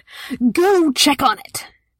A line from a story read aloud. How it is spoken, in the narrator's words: roared